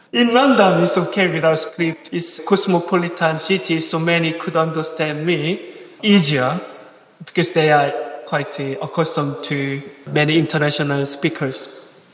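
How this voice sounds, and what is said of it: Non-native English accent. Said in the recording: “bearing with me and with my accent.”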